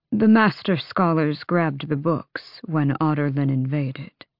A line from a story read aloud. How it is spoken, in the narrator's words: Darrow said, smiling sadly